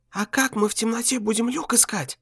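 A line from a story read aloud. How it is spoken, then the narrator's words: Whispered question. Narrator (Russian): шепотом спросила Валя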